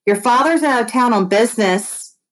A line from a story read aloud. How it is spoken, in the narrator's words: Mom called out